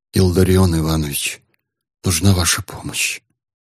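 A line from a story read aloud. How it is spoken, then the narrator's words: Hesitant quiet voice. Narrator (Russian): Коллежский асессор секунду помедлил и тихо сказал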